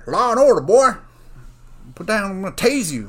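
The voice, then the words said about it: Bad put-on Southern accent. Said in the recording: “I did a southern accent there. Or a bad one.”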